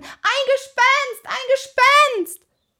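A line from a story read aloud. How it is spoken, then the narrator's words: High-pitched scream. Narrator (German): er schrie in den höchsten Tönen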